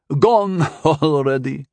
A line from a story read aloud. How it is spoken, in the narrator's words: the old man chuckled